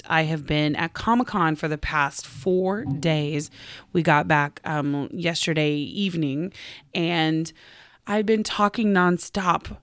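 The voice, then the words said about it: Slightly hoarse, strained voice. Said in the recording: “I am losing my voice just a little bit”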